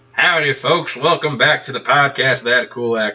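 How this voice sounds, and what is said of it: Put-on southern drawl. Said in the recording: “I'm not going to do this accent the whole time ... not pretending to have a southern drawl ... If you could tell by my southern accent”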